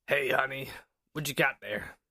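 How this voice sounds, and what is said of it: Beetlejuice character voice. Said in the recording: “Beetlejuice.”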